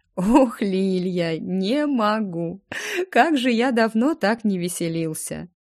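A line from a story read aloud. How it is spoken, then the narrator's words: Squeezed out through laughter. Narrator (Russian): выдавил сквозь смех Ремир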